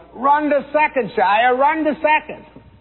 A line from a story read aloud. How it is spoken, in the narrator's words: Everyone yelled